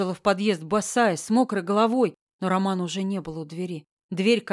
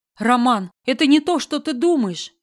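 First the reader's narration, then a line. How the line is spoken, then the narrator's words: Shouting. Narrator (Russian): Я кричала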